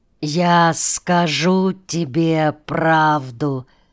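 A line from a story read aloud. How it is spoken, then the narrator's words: Slow, measured speech. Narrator (Russian): медленно с расстановкой проговорил Шогер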